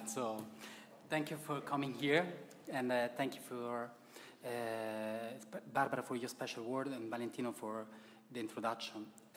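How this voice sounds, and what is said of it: Italian accent. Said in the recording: “you can hear from my accent that I'm very Italian”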